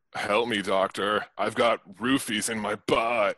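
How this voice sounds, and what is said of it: Stoner voice. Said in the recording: “Your accent is right. Stoner.”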